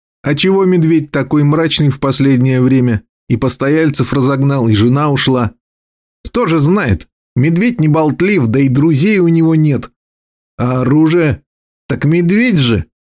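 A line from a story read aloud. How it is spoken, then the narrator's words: Smirking grunt. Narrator (Russian): хмыкнул Пенек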